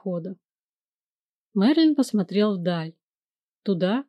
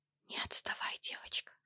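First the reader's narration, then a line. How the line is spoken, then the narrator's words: Whisper. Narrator (Russian): шепнула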